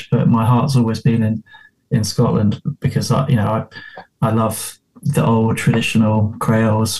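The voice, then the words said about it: English accent. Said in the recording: “from my accent, you can tell I'm I'm from south of the uh, south of the border, so I'm English, not not actually Scottish”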